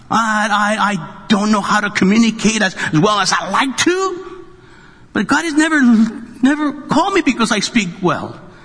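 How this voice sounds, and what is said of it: Speaks with a noticeable accent. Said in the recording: “I have an accent.”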